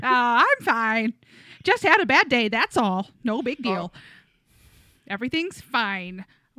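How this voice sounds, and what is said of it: Put-on Midwestern mom accent. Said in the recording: “Accent. ... Franny, my Midwest mom. ... She's a real put upon lady.”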